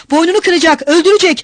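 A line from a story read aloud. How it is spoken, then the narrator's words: Shouting. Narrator (Turkish): Mikolka da bağırıyordu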